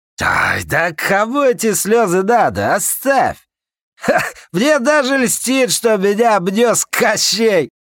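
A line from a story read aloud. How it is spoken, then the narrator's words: Infectious laughter. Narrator (Russian): Он заразительно засмеялся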